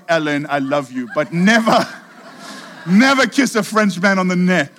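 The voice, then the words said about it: Put-on French accent. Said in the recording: “in my best French accent”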